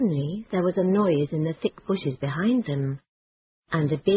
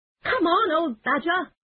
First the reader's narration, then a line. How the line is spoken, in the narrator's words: shouted the rat